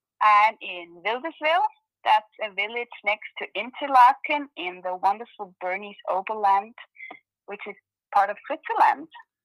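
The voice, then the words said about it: Beautiful foreign accent. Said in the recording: “how amazing and beautiful your accent is”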